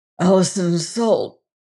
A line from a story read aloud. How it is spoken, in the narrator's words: said hoarsely